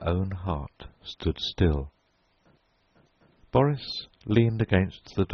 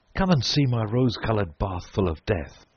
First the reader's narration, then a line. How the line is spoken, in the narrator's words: he cried